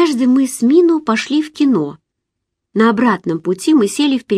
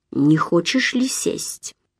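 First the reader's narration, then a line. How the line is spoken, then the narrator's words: Asked through clenched teeth. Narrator (Russian): спросил сквозь зубы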